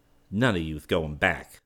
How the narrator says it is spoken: snapped Wally

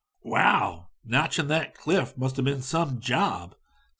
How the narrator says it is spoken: Scotty exclaimed

